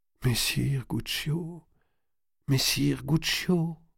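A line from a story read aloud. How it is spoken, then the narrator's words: Murmured. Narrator (French): murmura Marie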